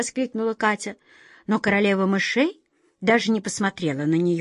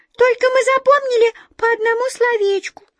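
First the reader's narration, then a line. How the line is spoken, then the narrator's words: Embarrassed squeak. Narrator (Russian): смущенно пискнула одна из мышек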